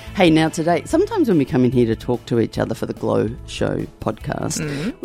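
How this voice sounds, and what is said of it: Slightly husky voice. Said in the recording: “excuse my voice ... It is a little bit husky than usual.”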